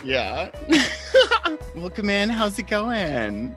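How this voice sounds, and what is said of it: Customer service voice. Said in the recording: “customer service voice”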